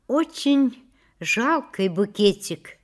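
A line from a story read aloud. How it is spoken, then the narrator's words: Quiet, strained. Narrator (Russian): наконец тихо, с усилием проговорила Шура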